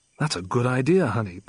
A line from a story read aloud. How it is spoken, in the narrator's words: Bond said